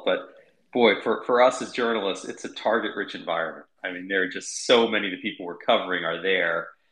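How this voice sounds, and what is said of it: Hoarse, barely recovered voice. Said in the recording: “you'd lost your voice ... I think I barely have it back ... ended up losing my voice”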